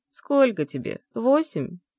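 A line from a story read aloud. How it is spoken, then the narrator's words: Mocking laugh. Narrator (Russian): Рассмеялся он ей в лицо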